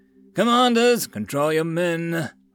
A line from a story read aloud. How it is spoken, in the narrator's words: Maul roared to his nearby troops